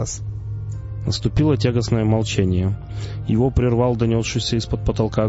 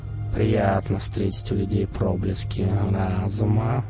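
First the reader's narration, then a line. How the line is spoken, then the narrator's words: Purring. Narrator (Russian): промурлыкал Мегло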